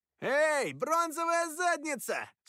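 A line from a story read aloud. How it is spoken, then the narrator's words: Shouted. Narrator (Russian): снова крикнул он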